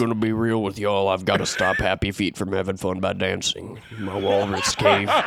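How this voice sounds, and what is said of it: Usual voice. Nothing is said of it.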